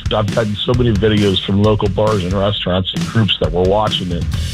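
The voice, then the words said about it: Hoarse, strained voice. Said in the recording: “Still a little hungover. I've lost my voice.”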